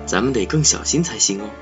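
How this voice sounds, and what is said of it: Quiet, hushed voice. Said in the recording (Chinese): “小声对安娜说”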